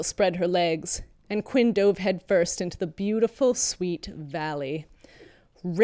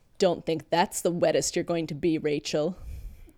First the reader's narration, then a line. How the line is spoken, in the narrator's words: She growled